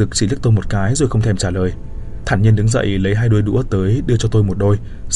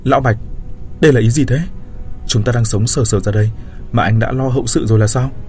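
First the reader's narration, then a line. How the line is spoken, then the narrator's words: Agitated stammering. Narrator (Vietnamese): Tôi kích động lắp bắp nói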